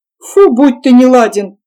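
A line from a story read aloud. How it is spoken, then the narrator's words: Laughing. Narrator (Russian): рассмеялся Ковалев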